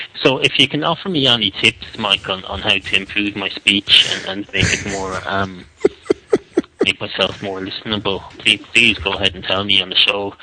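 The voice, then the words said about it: Strong, hard-to-understand accent. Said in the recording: “you couldn't make out what I was saying because of my accent ... if people can't hear my accent”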